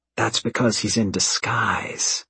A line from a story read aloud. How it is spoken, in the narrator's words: Evan whispers